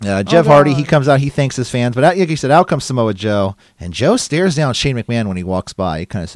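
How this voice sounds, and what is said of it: Usual voice. Nothing is said of it.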